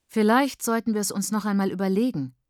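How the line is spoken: Plain. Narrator (German): sagt Praise

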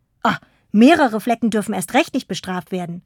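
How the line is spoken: Called out. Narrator (German): rief Karl

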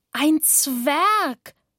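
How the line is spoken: Shouted in unison. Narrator (German): schrien wir wie aus einem Mund

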